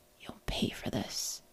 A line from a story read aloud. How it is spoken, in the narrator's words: hissed, the only audible, understandable words